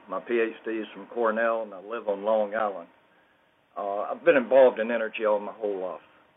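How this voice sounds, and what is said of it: Arkansas accent. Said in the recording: “My accent is from El Dorado, Arkansas.”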